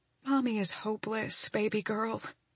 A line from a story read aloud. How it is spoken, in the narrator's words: I whisper